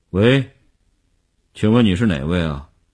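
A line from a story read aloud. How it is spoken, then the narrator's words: Tense, trembling voice. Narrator (Chinese): 林星呼吸紧张，几乎不能控制声音的痉挛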